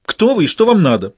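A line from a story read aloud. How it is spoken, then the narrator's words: Snappish, almost angry female. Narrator (Russian): почти зло огрызнулась она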